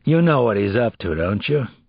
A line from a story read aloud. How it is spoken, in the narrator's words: The criminalist asked in an ominous voice